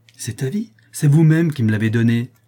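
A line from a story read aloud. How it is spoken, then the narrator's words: Exclaiming. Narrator (French): s'écria Vivaldi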